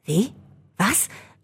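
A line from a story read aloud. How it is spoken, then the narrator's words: Confused stammer. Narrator (German): stotterte verwirrt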